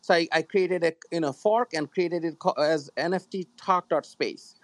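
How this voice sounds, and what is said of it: Noticeable foreign accent. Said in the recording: “I know my accent. Yeah. Accent gets in the way.”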